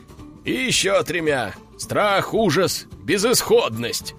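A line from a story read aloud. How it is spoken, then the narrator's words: Men laughing loudly. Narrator (Russian): расхохотались мужики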